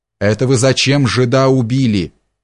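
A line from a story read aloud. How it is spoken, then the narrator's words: Thunderous exclamation. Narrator (Russian): громогласно воскликнул Чертопханов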